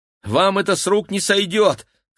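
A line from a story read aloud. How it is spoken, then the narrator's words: Shout. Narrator (Russian): крикнула Кира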